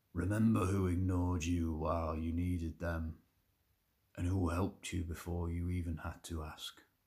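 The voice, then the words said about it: Tommy Shelby impression. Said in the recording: “do a my Tommy Shelby impression.”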